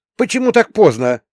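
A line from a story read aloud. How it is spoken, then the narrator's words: Indignant question. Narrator (Russian): возмущенно спросила Оля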